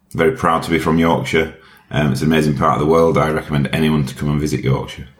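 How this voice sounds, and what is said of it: Yorkshire English accent. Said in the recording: “My accent is from Yorkshire um, in the UK.”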